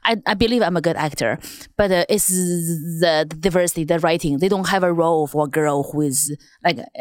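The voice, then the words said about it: Chinese accent. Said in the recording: “your accent is from China ... my accent”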